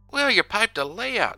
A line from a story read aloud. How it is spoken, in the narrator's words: gasped ecstatically